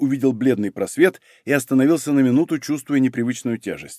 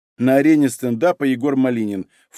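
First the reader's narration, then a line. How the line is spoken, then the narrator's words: Snorting. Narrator (Russian): фыркнула Елена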